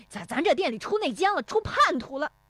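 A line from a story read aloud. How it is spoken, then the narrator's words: Furious shouting. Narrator (Chinese): 石有福气急败坏地嚷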